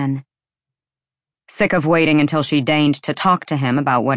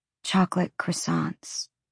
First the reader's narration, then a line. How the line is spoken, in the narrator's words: she said hoarsely